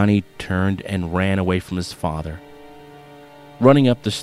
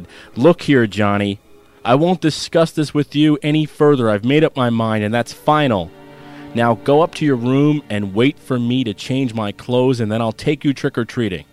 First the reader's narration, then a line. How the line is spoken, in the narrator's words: DeAndrea raising his voice as he said